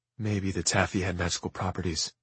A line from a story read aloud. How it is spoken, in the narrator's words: Sister Amelia said softly to Jem